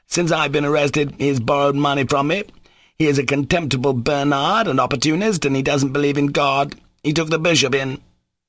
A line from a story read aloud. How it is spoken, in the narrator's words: Mitya cried loudly